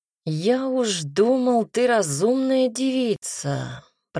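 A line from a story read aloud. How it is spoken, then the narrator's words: Drawl. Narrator (Russian): протянул он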